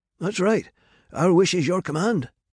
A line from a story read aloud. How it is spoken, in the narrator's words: said Orson nervously